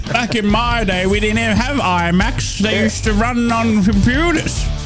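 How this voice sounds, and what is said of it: Old man voice. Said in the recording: “the old man voice”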